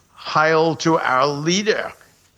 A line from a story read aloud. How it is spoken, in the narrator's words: shouted